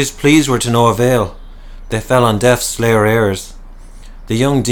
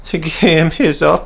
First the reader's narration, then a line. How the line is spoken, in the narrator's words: sobbed